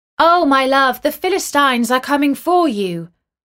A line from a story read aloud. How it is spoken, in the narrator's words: she called out